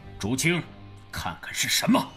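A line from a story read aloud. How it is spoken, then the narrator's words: Deep-voiced command. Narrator (Chinese): 赵无极沉声下令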